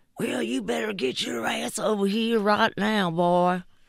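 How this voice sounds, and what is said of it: Southern backwoods sheriff accent. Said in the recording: “Every time there's a sort of a ignorant, backwoods sheriff, they have a Southern accent.”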